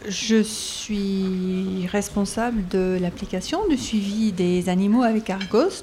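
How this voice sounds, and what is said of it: Toulouse regional French accent. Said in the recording (French): “Je travaille chez CLS ... à Toulouse. Vous allez vite vous en rendre compte dans mon accent.”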